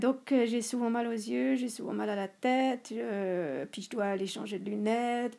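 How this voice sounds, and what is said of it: Swiss French accent. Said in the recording (French): “vous pouvez entendre mes et puis mon accent suisse”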